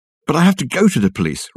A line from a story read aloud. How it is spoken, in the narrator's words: Richard exclaimed